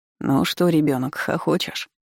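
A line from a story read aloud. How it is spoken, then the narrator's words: Sleepy question. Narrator (Russian): поинтересовался Киселёв сонным голосом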